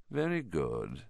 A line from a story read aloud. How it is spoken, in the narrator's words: said Voldemort softly